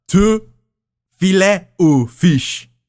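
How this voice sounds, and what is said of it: Exaggerated French accent. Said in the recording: “he puts on this like big French accent”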